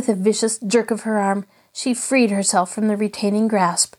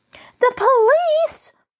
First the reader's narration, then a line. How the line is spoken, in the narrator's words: Mary fairly shrieked